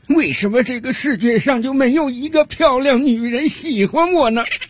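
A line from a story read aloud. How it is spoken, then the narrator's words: Crying. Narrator (Chinese): 他的哭声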